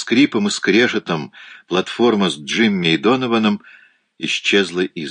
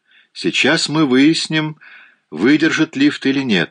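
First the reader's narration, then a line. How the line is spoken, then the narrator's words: Cheerful. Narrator (Russian): весело сказал Донован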